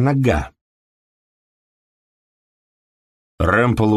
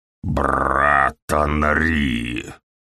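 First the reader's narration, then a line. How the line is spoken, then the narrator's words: Growling. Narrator (Russian): Прорычал он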